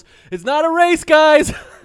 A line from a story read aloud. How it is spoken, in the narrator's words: yells